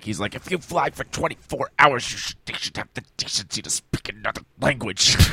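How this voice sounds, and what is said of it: Lewis Black impression. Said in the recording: “A great Lewis Black impression.”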